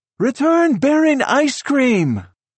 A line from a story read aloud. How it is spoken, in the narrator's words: Daniela shouts